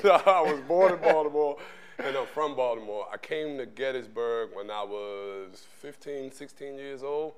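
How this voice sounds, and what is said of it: Baltimore accent. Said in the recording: “Baltimore, Maryland ... that accent just tells you all the way”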